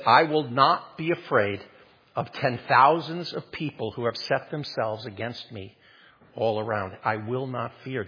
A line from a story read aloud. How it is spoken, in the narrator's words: David says